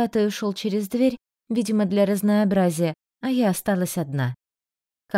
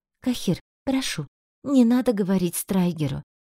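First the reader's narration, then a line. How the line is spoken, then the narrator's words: Quiet plea. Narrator (Russian): тихо попросила я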